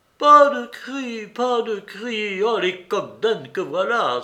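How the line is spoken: Exclamation. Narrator (French): s'écria Grushenka

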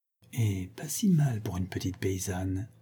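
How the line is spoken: Quiet. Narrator (French): dit-elle tout bas

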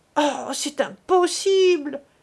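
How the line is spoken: Exclamation. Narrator (French): s'écria Millette

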